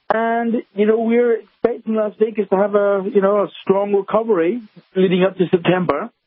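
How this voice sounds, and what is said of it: Scottish Glaswegian accent. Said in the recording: “Where'd you get that accent? ... Via Scotland ... From the streets of Scotland, streets of Glasgow.”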